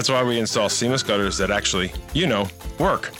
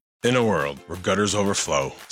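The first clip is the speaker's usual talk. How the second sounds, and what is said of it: Dramatic movie trailer narrator voice. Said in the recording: “doing the movie trailer voice again”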